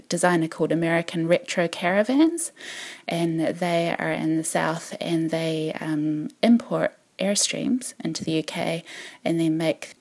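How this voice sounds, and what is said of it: New Zealand accent. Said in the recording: “You've got a New Zealand twang going on”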